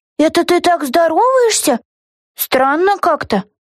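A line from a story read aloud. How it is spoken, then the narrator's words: Squeaky puzzled voice. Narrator (Russian): пискнула низенькая Карен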